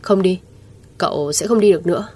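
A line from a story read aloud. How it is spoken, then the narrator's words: Indifferent, cold. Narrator (Vietnamese): Lãnh Tĩnh Hàn thờ ơ lạnh lùng nói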